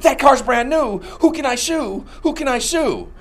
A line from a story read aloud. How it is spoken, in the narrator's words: a tree fell on his car, a man frantically saying